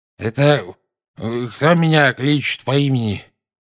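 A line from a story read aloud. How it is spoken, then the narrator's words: Sleepy mumble. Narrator (Russian): сонно пробормотал наземникус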